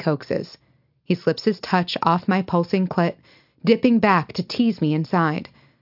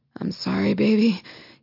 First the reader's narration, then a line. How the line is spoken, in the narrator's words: pants